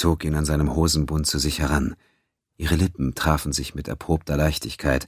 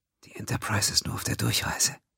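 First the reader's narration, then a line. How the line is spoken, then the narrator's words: Warm, tender whisper. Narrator (German): flüsterte ihm warm und innig zu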